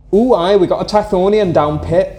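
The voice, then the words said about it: Put-on regional accent. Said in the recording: “Are you doing the accent?”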